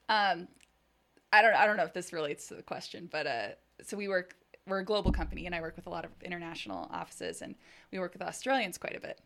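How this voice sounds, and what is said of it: American West Coast Valley girl accent. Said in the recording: “You have the most American accent I've ever heard. ... When I imitate an American accent, it's your voice. ... you're very like West Coast Valley girl, California.”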